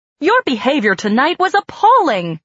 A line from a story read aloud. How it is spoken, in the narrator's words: she said angrily